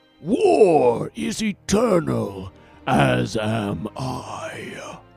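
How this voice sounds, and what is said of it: Deep character voice impression. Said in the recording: “terrible attempt at an impression”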